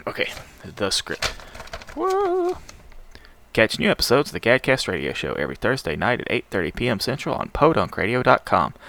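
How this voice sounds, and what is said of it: Rough, worn-sounding morning voice. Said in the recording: “my voice sounds like crud, it's because I'm recording this early in the morning”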